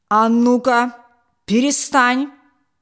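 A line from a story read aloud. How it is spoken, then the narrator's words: Menacing shout. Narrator (Russian): Грозно крикнул он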